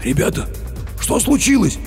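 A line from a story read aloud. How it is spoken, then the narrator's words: Hoarse with agitation. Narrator (Russian): хриплым от волнения голосом поинтересовался охранник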